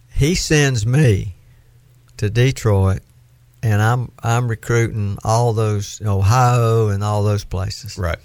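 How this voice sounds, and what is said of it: Southern US accent. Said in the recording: “I have a southern accent. You do.”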